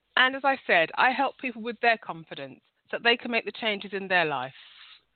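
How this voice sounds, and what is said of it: London accent. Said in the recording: “I'm from London. So if you're not used to this accent”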